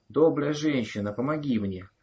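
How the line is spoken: Hoarse old woman. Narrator (Russian): прохрипела старуха

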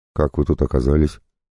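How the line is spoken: Plain. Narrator (Russian): спросил я

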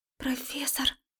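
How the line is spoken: Quiet voice. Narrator (Russian): Голос Марики звучал тихо

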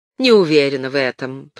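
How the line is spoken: Grumble. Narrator (Russian): проворчала Хэвис

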